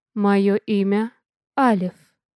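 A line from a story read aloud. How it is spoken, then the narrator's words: Slow, very clear speech. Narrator (Russian): медленно и очень разборчиво произнес мужчина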